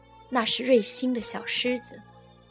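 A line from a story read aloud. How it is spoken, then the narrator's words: Flat, indifferent. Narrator (Chinese): 妻子淡淡的说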